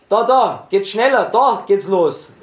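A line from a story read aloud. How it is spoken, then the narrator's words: Shouted from behind. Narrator (German): schrie hinter uns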